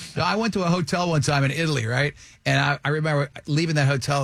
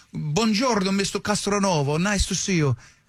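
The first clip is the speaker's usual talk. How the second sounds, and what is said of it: Good put-on Italian accent. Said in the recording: “You got a good accent when you did that there. That's impressive.”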